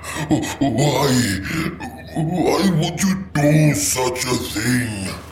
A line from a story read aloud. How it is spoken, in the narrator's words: It moaned helplessly